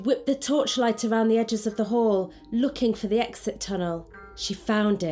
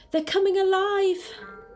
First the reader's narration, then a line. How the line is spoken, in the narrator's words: Mia screamed